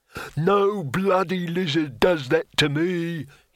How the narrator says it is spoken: he roared

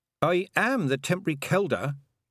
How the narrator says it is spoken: said Tiffany stiffly

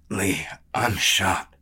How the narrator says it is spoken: the brawler rasped

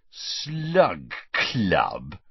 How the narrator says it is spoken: repeated Ron, with a sneer worthy of Malfoy

